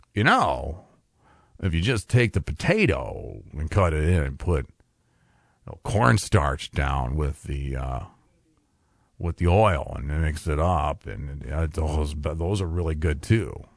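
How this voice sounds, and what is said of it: Imitates another person's voice. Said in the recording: “My Brian impression needs a little bit of work.”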